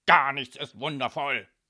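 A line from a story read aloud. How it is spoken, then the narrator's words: Shouted. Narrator (German): schrie Don Calzone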